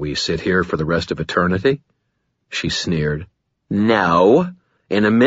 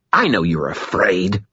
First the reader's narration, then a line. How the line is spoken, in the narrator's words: she spat